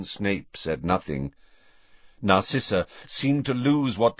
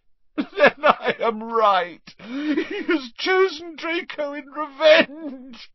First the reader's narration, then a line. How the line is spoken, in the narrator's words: choked Narcissa